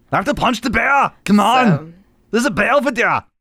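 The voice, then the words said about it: Imitates another person's voice. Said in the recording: “People do bad impersonations of Arnold Schwarzenegger”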